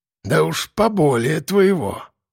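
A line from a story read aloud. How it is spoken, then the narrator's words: Snorting. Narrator (Russian): хмыкнул хозяин квартиры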